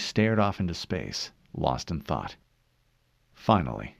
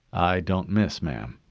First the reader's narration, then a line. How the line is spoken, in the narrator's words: John said